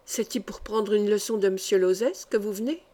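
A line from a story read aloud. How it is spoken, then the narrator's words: Low-voiced question. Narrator (French): demanda l'une d'elles à voix basse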